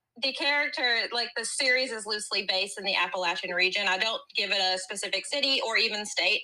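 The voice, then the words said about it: Southern West Virginia accent. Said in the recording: “you have, like, the cutest accent... I am from West Virginia, so we pretend we're the South... I am from Southern West Virginia”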